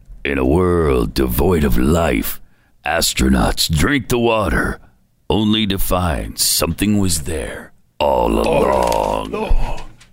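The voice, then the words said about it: Dramatic movie trailer narrator voice. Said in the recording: “movie trailer voice.”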